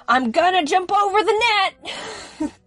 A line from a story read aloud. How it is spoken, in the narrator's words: he started yelling